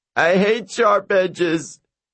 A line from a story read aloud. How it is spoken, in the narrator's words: If you gave him a sword, he'd drop it and scream